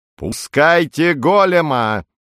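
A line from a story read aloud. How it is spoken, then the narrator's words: Thunderous command. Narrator (Russian): Громовым голосом командует хунта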